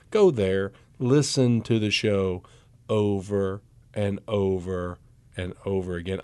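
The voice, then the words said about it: Low, sexy voice. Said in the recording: “I was just trying to get that low, sexy voice on the air”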